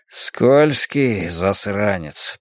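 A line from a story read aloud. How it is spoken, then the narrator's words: Muttering. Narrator (Russian): пробормотал Хардвик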